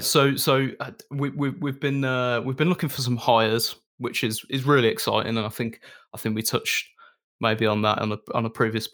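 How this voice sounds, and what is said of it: Monotone Brummie accent. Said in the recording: “my monotone brummy voice starts getting even more monotone ... your brummy accent isn't too overwhelming”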